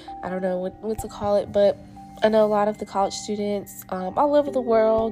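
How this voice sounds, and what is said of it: Sick, weird-sounding voice. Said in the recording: “Excuse my voice, I have been a little under the weather. I've been sick, so I'm gonna sound weird”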